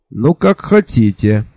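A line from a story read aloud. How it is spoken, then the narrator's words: Angry. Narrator (Russian): сердито сказал я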